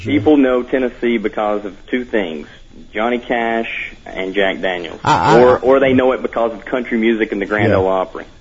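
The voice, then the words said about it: Southern US Tennessee accent. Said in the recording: “I've got a pretty good accent here ... people immediately know I'm from the South ... Tennessee”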